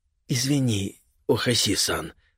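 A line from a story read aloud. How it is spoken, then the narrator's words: Whisper. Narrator (Russian): прошептал Така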